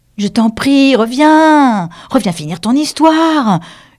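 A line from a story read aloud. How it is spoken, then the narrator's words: Shouting. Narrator (French): lui cria Alice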